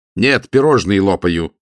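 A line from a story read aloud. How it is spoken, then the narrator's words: Snapping retort. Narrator (Russian): огрызнулся Матео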